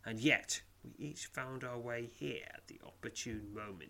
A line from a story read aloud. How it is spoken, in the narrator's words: hisses